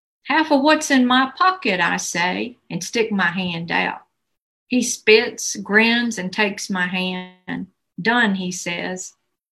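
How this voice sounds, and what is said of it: Appalachian accent. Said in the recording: “it was a pleasure to hear that Appalachian accent as well. That was beautiful.”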